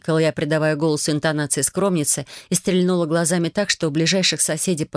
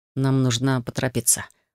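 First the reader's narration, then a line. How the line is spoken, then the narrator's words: Whisper. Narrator (Russian): прошептал Кайрос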